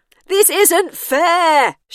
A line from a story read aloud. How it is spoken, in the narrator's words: she shouted through the glass at the top